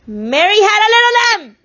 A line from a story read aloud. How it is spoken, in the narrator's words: Charles Wallace shouted